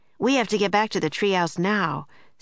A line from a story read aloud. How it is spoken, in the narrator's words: said Jack